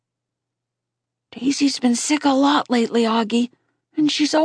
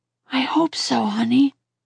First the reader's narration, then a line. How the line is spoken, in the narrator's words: she said quietly